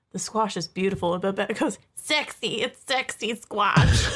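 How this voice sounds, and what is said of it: Good imitation of Miss Patty and Babette. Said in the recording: “That was a good imitation. ... That was really good. ... You nailed that one.”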